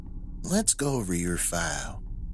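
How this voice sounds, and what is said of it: Carrying voice, mild southern accent. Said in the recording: “His voice carried. A mild southern accent sprinkled in.”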